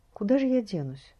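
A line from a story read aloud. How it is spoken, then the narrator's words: Sighing. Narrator (Russian): вздохнула она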